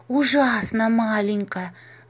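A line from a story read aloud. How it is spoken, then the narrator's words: Sighing. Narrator (Russian): вздохнула Маша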